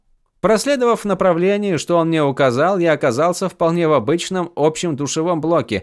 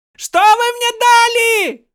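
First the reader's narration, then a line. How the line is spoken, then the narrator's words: Yelling. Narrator (Russian): Заорал я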